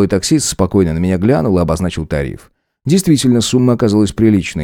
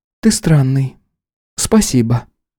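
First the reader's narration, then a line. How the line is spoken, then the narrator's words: Forced-smile remark. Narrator (Russian): выдавив улыбку, сказала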